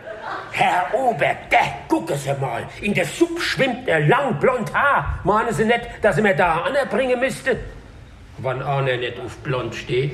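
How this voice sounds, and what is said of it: Hessian dialect. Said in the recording (German): “auf hessisch”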